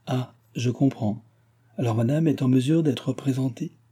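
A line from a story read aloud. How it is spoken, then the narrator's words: Timid. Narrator (French): fit timidement la comtesse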